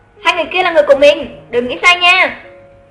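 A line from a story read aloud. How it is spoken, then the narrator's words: Raised voice. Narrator (Vietnamese): Lục Tiểu Hành vừa cao giọng nói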